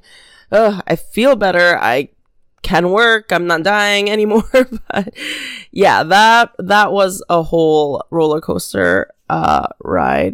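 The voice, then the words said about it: Slightly nasal, congested voice. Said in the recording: “sorry if my voice is still a little nasally. Still recovering.”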